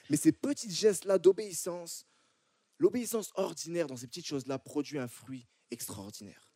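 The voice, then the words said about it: French accent from France. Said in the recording (French): “comme vous entendez à mon accent, là, moi, je viens de France”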